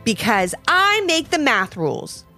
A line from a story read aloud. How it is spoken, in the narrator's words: snapped Mr